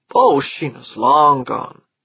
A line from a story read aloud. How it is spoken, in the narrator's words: he said